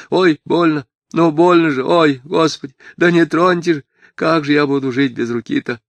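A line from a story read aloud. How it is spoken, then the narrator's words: Sobbing, trembling mutter. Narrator (Russian): Лаврушка, вздрагивая, изумленно выкатив глаза, всхлипывал и бормотал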